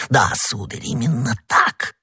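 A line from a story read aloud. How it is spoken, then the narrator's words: Barely audible frightened whisper. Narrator (Russian): чуть слышно в страхе прошептал посетитель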